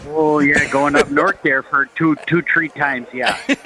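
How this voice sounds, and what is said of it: Put-on Yooper accent. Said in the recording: “a good Yooper accent”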